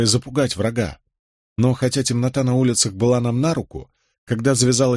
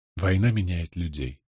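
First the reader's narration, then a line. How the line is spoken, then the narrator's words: Sigh. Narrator (Russian): вздохнула Джозефина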